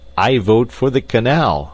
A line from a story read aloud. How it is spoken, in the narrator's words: he cried